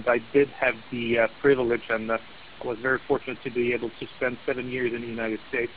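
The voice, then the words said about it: Speaks with a noticeable accent. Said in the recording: “as you can probably hear by my accent”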